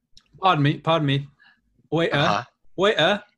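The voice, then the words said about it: Put-on British accent. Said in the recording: “your best British accent”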